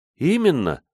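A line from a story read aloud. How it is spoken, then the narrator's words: Joyful, smiling. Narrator (Russian): радостно улыбнулась девушка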